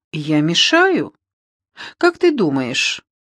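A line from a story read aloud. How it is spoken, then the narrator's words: Laughing. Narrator (Russian): Она засмеялась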